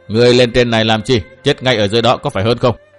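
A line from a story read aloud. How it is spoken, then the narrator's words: Cold old man. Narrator (Vietnamese): ông già chỉ lạnh lùng đáp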